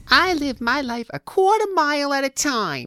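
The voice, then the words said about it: High-pitched accented character voice. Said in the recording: “you kind of sound like Harley Quinn ... the high pitch, like the way that the your words are inflecting, like with the high pitch ... Maybe it's just the accent too”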